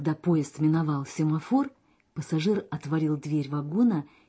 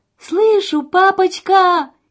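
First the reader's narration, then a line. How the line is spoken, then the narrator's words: Girl shouting. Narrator (Russian): кричала девушка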